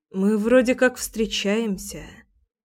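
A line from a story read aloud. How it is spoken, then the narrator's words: Quiet. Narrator (Russian): тихо сказала я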